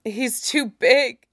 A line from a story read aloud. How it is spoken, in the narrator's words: she sobs